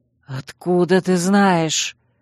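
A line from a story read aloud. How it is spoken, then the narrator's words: Breathed out. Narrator (Russian): Выдохнул он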